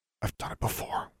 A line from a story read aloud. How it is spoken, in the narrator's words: Alexandra whispered